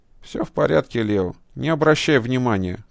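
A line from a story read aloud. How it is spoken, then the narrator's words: Gloomy. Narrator (Russian): мрачно ответил афганец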